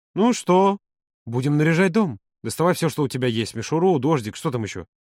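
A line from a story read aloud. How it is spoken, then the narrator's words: Uncertain mumble. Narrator (Russian): Юра неуверенно пробормотал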